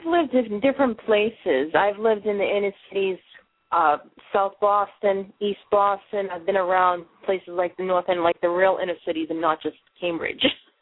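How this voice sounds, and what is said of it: Boston accent. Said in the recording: “I'm a real Boston girl. You know, can you tell the accent? My accent, you know, it's never going to go away... It's just a permanent part of me, as you can hear me speak.”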